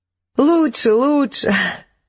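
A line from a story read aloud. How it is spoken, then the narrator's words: Laughing throughout. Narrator (Russian): не переставала смеяться Джейн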